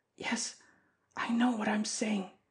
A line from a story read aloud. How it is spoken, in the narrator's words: whispering hoarsely now